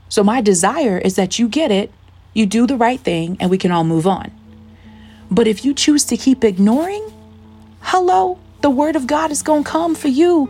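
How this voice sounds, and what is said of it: Loud, raised preaching voice. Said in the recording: “the reason why we're talking so loud, the reason why I'm talking so loud”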